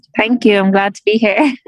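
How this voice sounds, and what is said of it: Irish accent. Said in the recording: “Isn't that a fantastic accent?”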